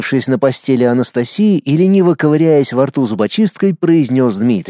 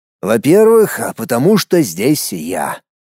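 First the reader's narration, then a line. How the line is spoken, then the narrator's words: Smug, smirking. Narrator (Russian): хмыкнул в ответ Дмитрий, нагло улыбаясь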